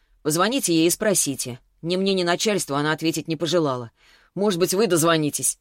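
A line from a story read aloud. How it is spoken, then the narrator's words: Snapped irritably. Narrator (Russian): огрызнулся он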